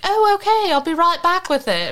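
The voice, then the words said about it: Imitated British accent. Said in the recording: “I repeated back to her in British”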